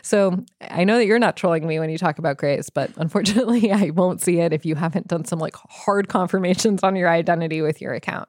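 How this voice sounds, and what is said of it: Congested, stuffy-nosed voice. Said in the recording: “I sound congested,... it's because, yes, you guessed it. I have my third sickness of this season.”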